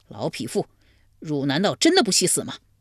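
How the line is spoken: Furious. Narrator (Chinese): 怀公见之大怒

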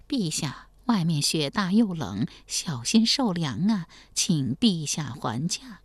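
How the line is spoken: Softly urging. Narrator (Chinese): 王继恩小声劝道

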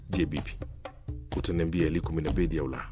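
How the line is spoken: Harsh question. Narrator (Swahili): kumuuliza kwa ukali

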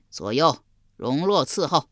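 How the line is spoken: Loud, delighted. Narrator (Chinese): 襄王喜得合不拢嘴，高声说道

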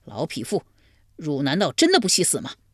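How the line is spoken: Furious. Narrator (Chinese): 怀公大怒

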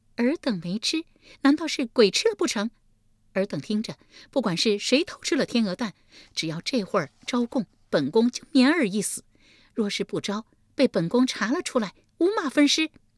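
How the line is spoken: Cold sneering. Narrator (Chinese): 立即冷笑一声道

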